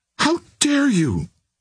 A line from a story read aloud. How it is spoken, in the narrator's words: she cried